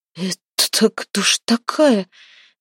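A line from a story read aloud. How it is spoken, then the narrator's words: Stammering in astonishment. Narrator (Russian): заикаясь от изумления, выдавил Храпун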